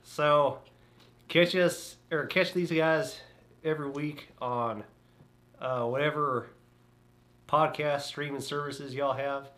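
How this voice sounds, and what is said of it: West Texas accent. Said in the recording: “The West Texas accent's coming out”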